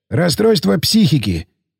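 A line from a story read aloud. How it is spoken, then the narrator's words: Knowing statement. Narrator (Russian): сознанием дела констатировал Сиплый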